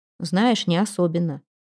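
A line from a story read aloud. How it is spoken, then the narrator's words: Forced even tone. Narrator (Russian): согласился Кокрин, стараясь говорить ровным голосом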